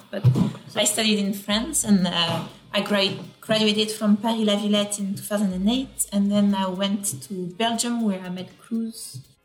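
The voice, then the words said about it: Obvious French accent. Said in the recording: “my accent is quite obvious, so people will assume more the French part”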